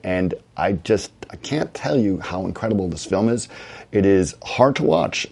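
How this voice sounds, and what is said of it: Hoarse voice. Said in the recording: “I'm my very hoarse, as you can tell, because I've been at SIGGRAPH for the last few days, and it has been rough on me.”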